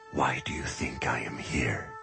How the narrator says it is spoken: whispered

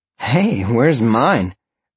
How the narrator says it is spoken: Roxy laughed from the front seat

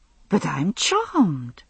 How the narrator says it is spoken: she had exclaimed

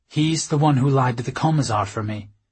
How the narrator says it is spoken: I said

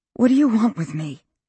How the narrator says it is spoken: Haley could hear her voice shaking

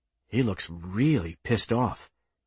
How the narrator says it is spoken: the ensign said quietly

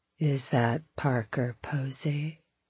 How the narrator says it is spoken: he mumbled to the woman next to him

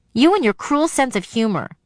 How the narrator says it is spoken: she snapped

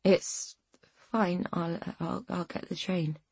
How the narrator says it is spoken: she mumbled, trying to sit up, aware that she was utterly drained of energy

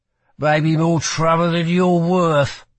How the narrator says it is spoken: he slurred

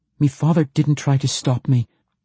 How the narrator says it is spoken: she blurted with a tone of finality

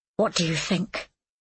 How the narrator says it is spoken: whispered

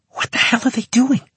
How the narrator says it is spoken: Natasha hissed at me

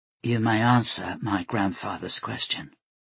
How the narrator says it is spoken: she said to Mikhail in a gentle voice

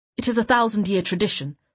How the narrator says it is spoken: Sabran said curtly

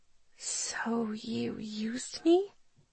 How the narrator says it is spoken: I whisper

